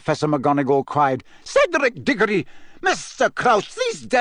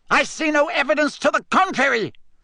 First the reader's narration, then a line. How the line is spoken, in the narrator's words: shouted Fudge, now matching her anger, his face purpling